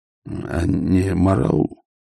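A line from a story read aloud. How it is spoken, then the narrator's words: Muttered. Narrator (Russian): пробормотал Ваймс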